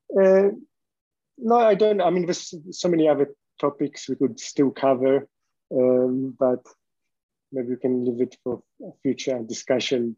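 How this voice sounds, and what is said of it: Strong accent, somewhat hard to understand. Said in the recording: “I do have a strong accent ... maybe it's hard to understand me”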